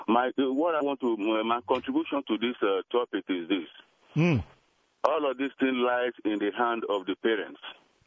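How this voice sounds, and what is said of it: Noticeable accent. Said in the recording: “I love your accent.”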